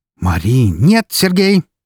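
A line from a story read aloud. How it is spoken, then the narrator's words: Furious barking shout. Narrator (Russian): рявкнула его жена, постепенно превращаясь в яростную фурию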